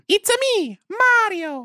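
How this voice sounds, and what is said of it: Mario video game character voice. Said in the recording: “You do a good Mario impression ... Yeah, that's really good.”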